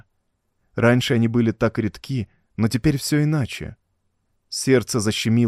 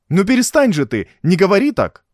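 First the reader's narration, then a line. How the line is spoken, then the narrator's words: Broken, pained, cracking exclamation. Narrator (Russian): воскликнула Режина, и голос ее прозвучал как будто ломано, болезненно, срываясь с низкой на высокую ноту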